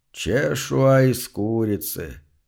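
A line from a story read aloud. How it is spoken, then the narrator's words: Vague drawl. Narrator (Russian): как-то неопределенно протянул он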